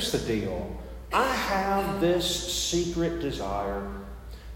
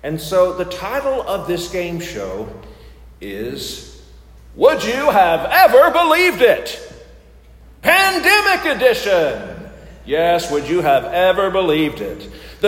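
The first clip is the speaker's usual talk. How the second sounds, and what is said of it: Game show host voice. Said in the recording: “I'm going to use my best game show voice”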